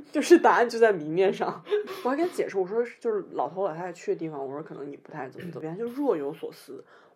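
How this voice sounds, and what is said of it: Northern Chinese accent. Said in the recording (Chinese): “我讲话就北方口音”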